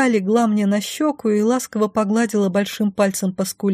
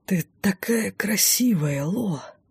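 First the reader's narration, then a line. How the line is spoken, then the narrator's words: Lustful whisper. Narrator (Russian): прошептал он с вожделением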